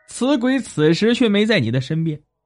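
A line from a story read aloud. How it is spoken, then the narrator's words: Hearty laughing speech. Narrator (Chinese): 道士哈哈大笑说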